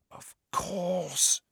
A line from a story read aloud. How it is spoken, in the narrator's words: she breathed